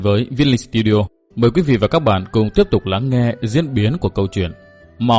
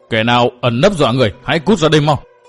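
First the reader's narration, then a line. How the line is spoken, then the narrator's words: Shout carried on wind. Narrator (Vietnamese): Tiếng quát vang đi theo gió đêm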